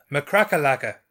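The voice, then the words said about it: Put-on Irish accent. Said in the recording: “say that in an Irish accent”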